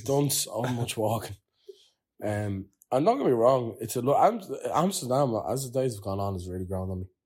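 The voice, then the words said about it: Tired-sounding voice. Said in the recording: “I'm so tired. ... You can probably hear it in their voices.”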